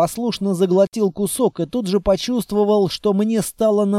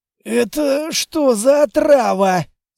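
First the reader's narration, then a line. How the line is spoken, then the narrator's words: Hoarse question. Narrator (Russian): спросил я севшим голосом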